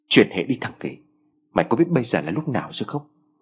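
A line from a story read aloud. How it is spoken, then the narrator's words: Hushed sharp rebuke. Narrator (Vietnamese): tiếng quát khẽ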